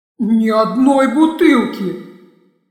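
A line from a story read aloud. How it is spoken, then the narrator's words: Anguished moan. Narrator (Russian): Страдальчески простонал Штенье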